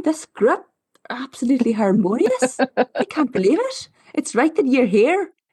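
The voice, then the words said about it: Put-on Northern Irish accent. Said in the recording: “the two of the facilitators were like, you've got a Northern Irish accent.”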